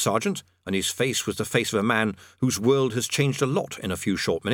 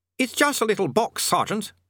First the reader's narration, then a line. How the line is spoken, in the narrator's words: he snapped